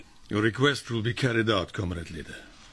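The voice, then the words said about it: Put-on Russian accent. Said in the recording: “use your Russian accent. Let's say practice makes perfect.”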